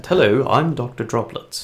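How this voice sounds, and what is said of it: Put-on British accent. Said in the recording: “I imagine him having a British accent.”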